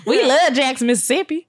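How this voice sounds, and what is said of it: Imitated Southern Mississippi accent. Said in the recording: “It's this is an crazy accent.”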